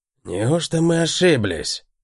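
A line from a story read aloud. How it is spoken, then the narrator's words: Muttered. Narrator (Russian): пробормотал Пэт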